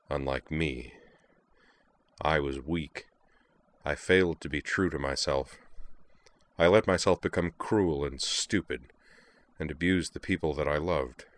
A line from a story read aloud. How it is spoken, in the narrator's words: continued in a dark murmur